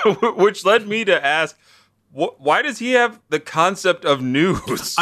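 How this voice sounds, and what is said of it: Usual voice. Nothing is said of it.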